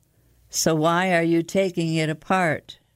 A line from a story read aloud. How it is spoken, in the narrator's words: Adam sighed a 100-year-old sigh